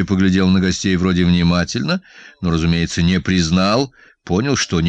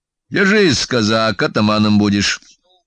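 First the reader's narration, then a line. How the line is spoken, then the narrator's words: Rather cold. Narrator (Russian): Проговорил он довольно холодно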